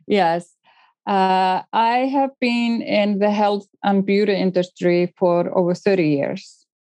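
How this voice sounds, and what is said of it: Icelandic accent. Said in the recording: “I'm from Iceland, which will explain my ... Your lovely accent.”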